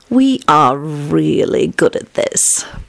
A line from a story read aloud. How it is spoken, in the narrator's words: purred Elizabeth